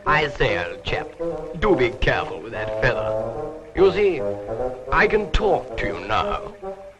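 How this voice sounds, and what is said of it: Character voice with English accent. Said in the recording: “he's got the darndest English accent.”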